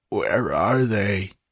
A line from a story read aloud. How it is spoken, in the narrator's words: It was a racking croak, not even remotely resembling a human voice